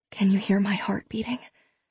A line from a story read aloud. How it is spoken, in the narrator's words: Amelia whispers to Grady